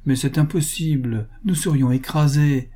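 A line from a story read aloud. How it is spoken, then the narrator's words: Exclaimed. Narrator (French): s'écria M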